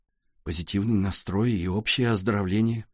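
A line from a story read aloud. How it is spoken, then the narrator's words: Muttered. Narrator (Russian): пробормотал Валя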